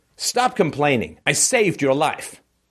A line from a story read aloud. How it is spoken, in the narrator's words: Stefan snaps scornfully